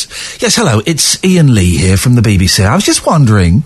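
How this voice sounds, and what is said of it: Posh phone voice. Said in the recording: “when you answer the phone, we go to our posh voice.”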